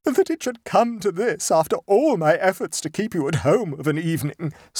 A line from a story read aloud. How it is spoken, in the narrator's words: sobbed Mrs